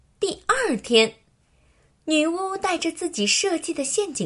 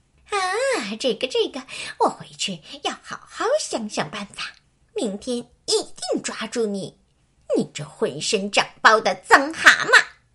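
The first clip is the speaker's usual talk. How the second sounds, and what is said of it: Quiet muttering witch voice. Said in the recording (Chinese): “女巫一边往家走，一边小声嘀咕”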